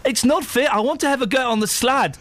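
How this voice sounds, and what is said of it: Quite good put-on South African accent. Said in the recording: “my South African accent ... It's very impressive, actually. ... It is quite good, isn't it?”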